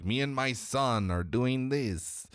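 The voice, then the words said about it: Badly done put-on accent. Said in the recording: “terrible accent.”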